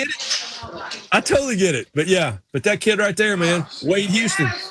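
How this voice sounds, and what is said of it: Usual voice. Nothing is said of it.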